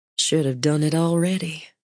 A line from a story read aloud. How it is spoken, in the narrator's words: she muttered